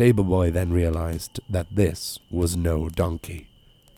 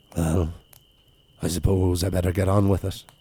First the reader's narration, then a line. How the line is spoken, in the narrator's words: The big ass sighed and gently said